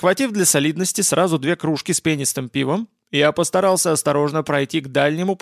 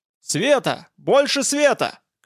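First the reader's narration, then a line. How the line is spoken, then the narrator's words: Shouting. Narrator (Russian): крикнул кто-то из буйных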